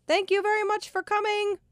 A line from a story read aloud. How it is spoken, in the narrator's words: yelled out the window